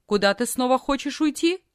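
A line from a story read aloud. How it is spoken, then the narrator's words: Stern question, aunt. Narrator (Russian): тетя строго спросила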